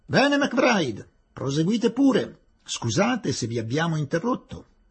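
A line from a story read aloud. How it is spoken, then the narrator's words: Authoritative shout. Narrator (Italian): Callender gridò in tono autoritario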